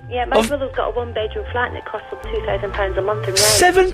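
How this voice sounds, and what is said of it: Scottish accent, Edinburgh. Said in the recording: “You're talking to a Scottish man. ... I recognise the accent, you see. ... Born and dug up in Edinburgh.”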